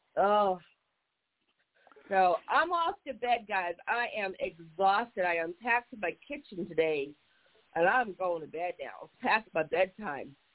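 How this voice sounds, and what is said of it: High, youthful-sounding voice. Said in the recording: “Why do you sound younger than us? ... I just have a high voice.”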